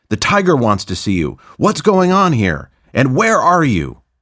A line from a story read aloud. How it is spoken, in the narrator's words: Roger's boss, Todd, who yelled